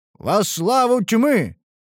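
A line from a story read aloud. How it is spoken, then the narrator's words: Barked in unison. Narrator (Russian): рявкнули фанатики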